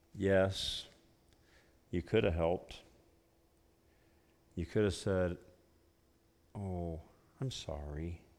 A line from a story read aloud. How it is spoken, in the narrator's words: The little boy's eyes just grew bigger, he said in a low voice